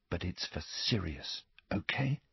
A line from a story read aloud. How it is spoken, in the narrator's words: he told her, without knowing exactly why, whispering